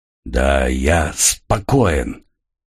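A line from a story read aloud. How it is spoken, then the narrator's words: Hoarse croak. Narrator (Russian): прохрипел Росос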